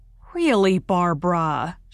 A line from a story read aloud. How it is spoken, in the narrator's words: she said icily